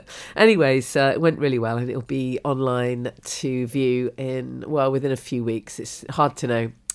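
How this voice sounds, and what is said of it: Congested, sick-sounding voice. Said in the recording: “as you can probably tell from my voice, almost immediately after the talk, I came down with a cold”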